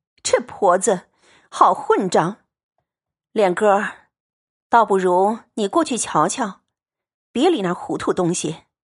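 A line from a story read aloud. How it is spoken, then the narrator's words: Annoyed yet amused. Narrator (Chinese): 王夫人又生气又好笑，说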